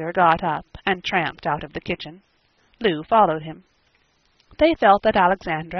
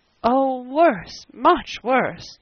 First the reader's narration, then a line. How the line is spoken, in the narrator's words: moaned Mrs